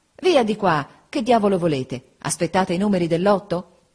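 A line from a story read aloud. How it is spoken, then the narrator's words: Impatient exclamation. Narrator (Italian): Giuseppe, spazientito, esclamava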